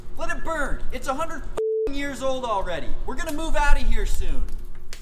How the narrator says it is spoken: one inmate shouted

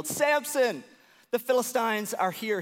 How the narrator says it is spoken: Delilah yelled

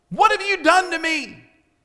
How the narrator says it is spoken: screams ... says

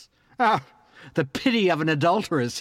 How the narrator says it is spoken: barks

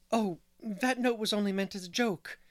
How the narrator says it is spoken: gasped Anne

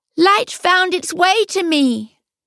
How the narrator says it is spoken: her husband cried in the high, thin voice of a bird

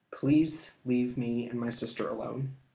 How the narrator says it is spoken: he replied quietly

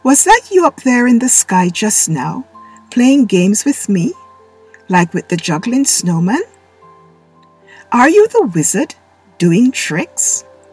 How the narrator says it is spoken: laughed gently

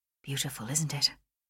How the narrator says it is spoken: He paused, then murmured

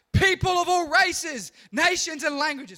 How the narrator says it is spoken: a herald shouted out

